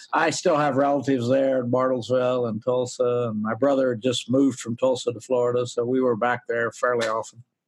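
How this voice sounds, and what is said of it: Oklahoma accent. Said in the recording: “my daughter-in-law is French, and she told me she couldn't understand a word I said for the first 2 years. So I guess that accent never leaves.”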